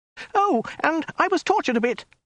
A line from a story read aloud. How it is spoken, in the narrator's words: shrieked the woman